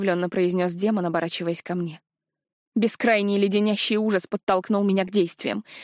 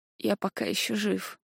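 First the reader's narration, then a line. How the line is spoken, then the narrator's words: Mumbling with numb lips. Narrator (Russian): пробормотал демон немеющими губами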